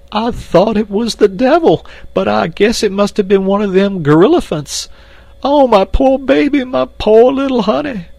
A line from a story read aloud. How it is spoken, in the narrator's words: And again Esmeralda broke into uncontrollable sobbing